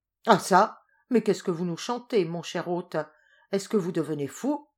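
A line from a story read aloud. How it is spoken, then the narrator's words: Exclaimed. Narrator (French): s'écria Cristobal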